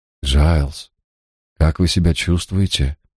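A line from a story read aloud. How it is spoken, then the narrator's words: Gentle question. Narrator (Russian): мягко спросил я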